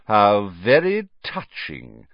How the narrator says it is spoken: sneered Snape

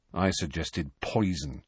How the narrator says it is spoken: said Ron grimly

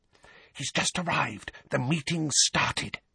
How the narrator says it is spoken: whispered urgently

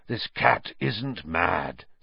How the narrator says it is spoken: said Black hoarsely

